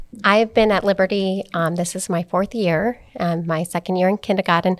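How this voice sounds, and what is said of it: Speaks with a noticeable accent. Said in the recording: “I do have an accent”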